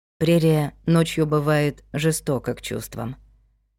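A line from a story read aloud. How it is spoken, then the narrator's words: Quiet. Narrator (Russian): тихо сказал Вик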